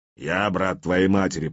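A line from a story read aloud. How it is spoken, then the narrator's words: Grumbling. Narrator (Russian): проворчал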